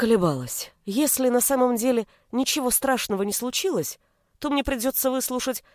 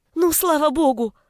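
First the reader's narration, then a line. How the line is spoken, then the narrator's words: Exclaimed. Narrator (Russian): воскликнула она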